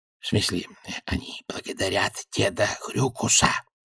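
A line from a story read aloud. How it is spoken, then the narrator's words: Hiss. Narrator (Russian): прошипел Альберт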